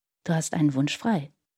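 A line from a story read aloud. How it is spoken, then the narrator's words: Quiet. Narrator (German): sagte er leise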